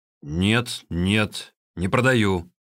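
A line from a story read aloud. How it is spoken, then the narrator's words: Angry reply. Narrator (Russian): сердито отвердил тот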